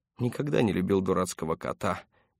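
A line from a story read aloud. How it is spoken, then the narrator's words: Grumbling. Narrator (Russian): проворчал Паркер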